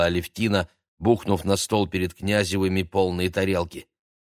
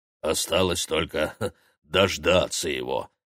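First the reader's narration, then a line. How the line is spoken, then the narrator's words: Smirking grunt. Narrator (Russian): хмыкнул бородатый оператор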